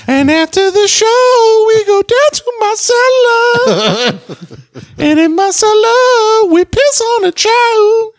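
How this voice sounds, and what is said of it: Singing in falsetto. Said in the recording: “That's some good falsetto.”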